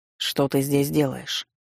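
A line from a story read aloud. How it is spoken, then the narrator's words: Cold. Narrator (Russian): поинтересовался холодно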